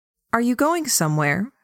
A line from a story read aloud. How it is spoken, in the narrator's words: Frey asked